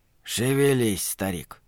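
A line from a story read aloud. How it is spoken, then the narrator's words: Soft, to himself. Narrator (Russian): мягко сказал он себе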